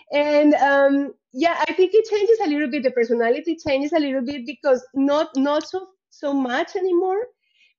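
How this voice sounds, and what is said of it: Strong foreign accent in English. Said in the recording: “When I speak English, of course, all this accent comes, the strong accent.”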